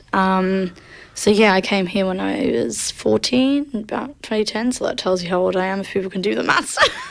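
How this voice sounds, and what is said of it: Slight English accent. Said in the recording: “you've still got a bit of an accent ... your family's from Liverpool”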